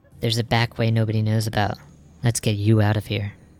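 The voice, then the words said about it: Whispered female character voice. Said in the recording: “You hear a whisper, and it's a female Rodian's voice.”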